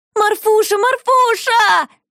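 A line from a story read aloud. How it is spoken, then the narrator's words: Loud shout. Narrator (Russian): закричала Шуша на весь музей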